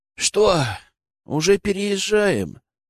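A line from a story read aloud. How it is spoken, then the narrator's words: Sleepy question. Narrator (Russian): сонным голосом спросил он, протирая глаза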